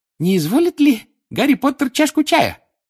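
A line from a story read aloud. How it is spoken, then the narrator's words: Loud squeak over crying. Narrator (Russian): громко пискнул он, перекрывая плач Винки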